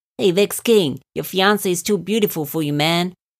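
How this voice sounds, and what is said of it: Put-on accent. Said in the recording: “I don't know why I put on that accent.”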